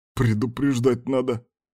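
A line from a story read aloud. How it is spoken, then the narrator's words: Breathless mutter. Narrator (Russian): буркнул Кастер, когда смог говорить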